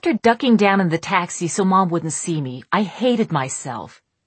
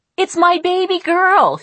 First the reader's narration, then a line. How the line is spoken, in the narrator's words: she called out